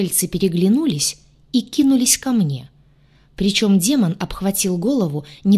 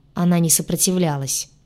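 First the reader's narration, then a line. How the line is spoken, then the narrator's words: Grim. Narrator (Russian): мрачно произнес демон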